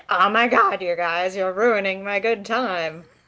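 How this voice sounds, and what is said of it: Valley girl cartoon character voice. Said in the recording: “talks in, like, a valley girl accent ... that's the best impression I could muster”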